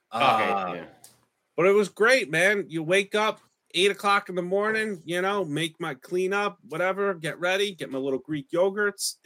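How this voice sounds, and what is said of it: Speaks with his own regional accent. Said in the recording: “They say it Hallandale, but with my accent, I say Allendale Beach.”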